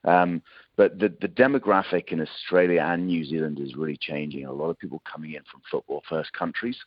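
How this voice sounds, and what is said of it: British accent. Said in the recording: “I'm probably tell from accent I'm a Brit.”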